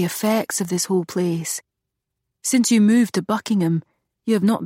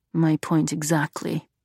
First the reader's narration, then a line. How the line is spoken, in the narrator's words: Monroe muttered